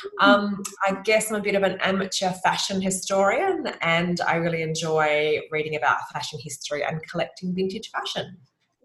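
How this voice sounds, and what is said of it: Australian accent. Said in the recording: “As you can probably tell by the accent, I'm Australian”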